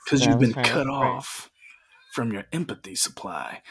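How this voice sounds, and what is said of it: Deep announcer-style radio voice. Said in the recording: “radio voice”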